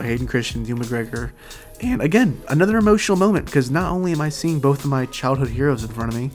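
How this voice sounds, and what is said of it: Hoarse, strained, fading voice. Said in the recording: “I am losing my voice a little bit if you can't tell, so I do apologize for sounding like this ... a long day of screaming”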